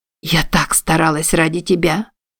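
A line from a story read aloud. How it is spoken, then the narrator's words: Sobbing mutter. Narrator (Russian): пробормотала Изабель, всхлипывая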